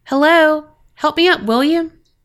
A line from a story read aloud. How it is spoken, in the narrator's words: a young woman's voice called out